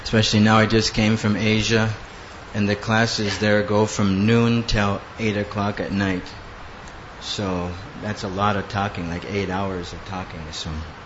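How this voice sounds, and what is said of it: Hoarse, strained worn-out voice. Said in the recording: “my voice doesn't work. It's broken ... my voice is, it just broke down”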